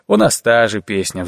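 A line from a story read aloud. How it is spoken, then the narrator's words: Sighing. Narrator (Russian): вздохнул Шабанеев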